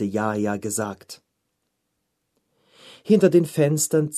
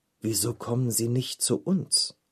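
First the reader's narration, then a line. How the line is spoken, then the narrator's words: Mutter. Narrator (German): murmelt er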